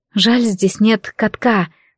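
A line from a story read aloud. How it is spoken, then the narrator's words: Whisper. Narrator (Russian): прошептала я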